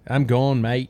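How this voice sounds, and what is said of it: Bad put-on Australian accent. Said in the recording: “that's a terrible Australian dialect ... I thought it was horrible”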